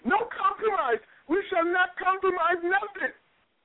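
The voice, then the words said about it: Imitation of a past guest's voice. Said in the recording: “let me do my best imitation of him”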